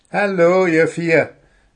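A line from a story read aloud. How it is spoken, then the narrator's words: Friendly call. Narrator (German): rief Gundula freundlich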